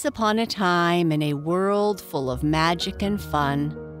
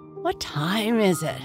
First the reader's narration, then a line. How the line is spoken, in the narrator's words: Sparkle opened one eye and mumbled